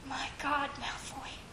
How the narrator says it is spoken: whispered

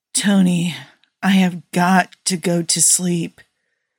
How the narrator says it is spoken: Steve slurred

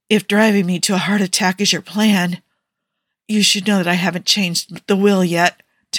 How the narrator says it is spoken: Tony said tightly, eyes squeezed shut

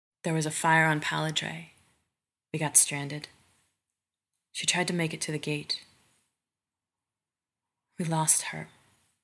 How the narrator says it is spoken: Rodney says

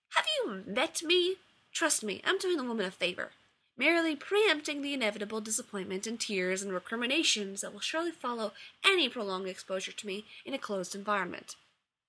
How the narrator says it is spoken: snapped

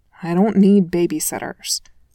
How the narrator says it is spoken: Clint mumbled sourly

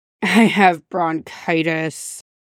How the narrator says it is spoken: he grumbled, face buried in Danny's lap

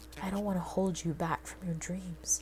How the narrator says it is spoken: John … in a painfully over-the-top expression of defeat and whispered

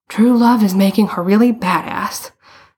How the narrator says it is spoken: Bruno panted

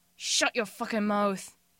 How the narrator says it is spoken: Jim snarls

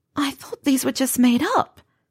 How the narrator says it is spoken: Pansy was almost whispering now

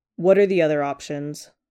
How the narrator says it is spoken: his dad asks

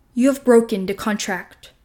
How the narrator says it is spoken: Morax thunders

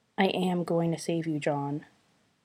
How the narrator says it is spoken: Sherlock repeats softly

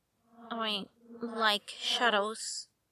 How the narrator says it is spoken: Bruce muttered

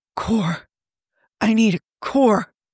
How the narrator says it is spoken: Tony gasped

